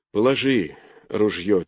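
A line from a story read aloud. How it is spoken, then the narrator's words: Quiet. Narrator (Russian): тихо произнес он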